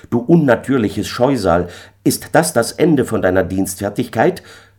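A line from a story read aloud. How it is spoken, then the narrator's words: Called out. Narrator (German): rief ich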